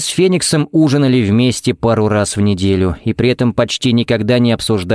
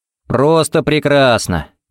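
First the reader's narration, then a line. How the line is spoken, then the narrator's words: Cheerful sincere reply. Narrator (Russian): бодро отвечал ей Харри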